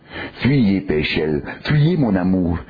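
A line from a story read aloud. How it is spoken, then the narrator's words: Frightened woman's moan. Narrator (French): gémit la pauvre femme apeurée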